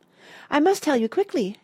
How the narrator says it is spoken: gasped Fenella

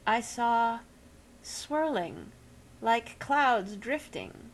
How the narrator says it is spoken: he said slowly, and to some extent truthfully

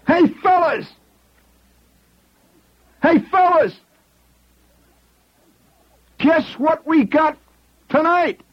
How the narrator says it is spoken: hollers

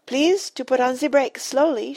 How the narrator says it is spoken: she cried

